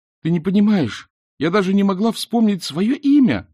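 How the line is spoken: Sharp cry. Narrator (Russian): вскрикнула Эск

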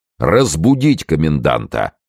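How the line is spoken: Thunderous voice, coachman. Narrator (Russian): сказал кучер громовым голосом

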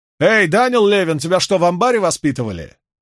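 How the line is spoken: Shouted. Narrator (Russian): Дейс крикнула

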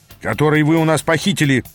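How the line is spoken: Spiteful interjection. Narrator (Russian): злобно вставил один из вейгасцев

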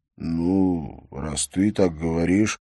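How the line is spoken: Drawling. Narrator (Russian): протянул Бьорн

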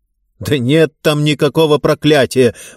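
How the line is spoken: Shouted out. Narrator (Russian): выкрикнул я

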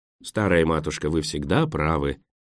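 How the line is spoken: Gentle teasing. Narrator (Russian): мягко поддразнил доктор

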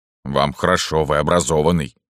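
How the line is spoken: Grumbling. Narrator (Russian): пробурчал Дыба

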